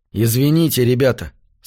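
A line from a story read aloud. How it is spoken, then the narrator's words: Plain. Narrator (Russian): сказал я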